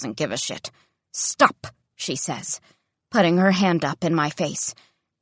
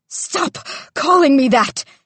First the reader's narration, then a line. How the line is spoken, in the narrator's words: she screams